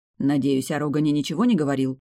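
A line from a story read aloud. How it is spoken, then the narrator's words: Indignant snort. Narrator (Russian): Кот негодующе фыркнул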